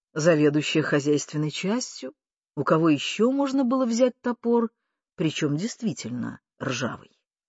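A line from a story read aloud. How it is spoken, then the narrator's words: Calm explanation. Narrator (Russian): Андрюша спокойно пояснял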